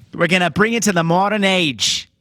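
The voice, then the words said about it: Put-on Long Island/Boston-style accent. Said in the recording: “I don't know what accent I'm doing. ... It was like whatever halfway between Long Island and Boston is.”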